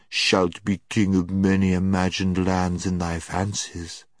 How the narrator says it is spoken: said the witch in a soothing voice, as if she were humouring a child

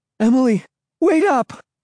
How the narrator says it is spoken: called breathlessly

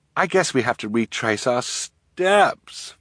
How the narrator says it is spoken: Violet said miserably

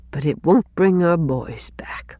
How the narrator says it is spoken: she added under her breath

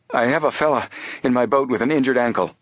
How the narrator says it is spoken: he told breathlessly

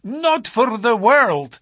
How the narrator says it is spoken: he cried, with a gesture of horror

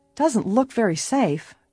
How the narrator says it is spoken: Bess remarked uneasily

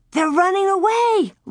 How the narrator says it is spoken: Laura cried out

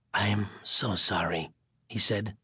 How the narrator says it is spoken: his voice a whisper of regret

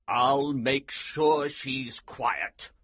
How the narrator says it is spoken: the Colonel said grimly

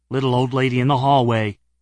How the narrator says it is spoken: he said again

